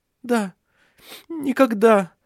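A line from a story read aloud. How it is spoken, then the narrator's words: Sobbing. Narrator (Russian): всхлипнула Ирия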